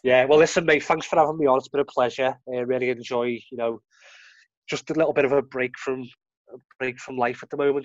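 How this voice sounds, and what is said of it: Scouse (Liverpool) accent. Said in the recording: “it's always good to hear that Scouse accent from you anyway ... your Scouse accent”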